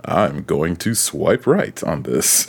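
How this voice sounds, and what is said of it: Deep, godlike narrator voice. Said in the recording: “in his Morgan Freeman voice ... It's like listening to God swipe on Tinder.”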